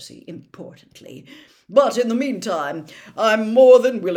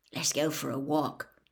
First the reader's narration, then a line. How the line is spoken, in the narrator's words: Ron muttered